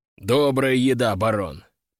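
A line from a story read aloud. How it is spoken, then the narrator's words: Deep bass voice. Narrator (Russian): пробасил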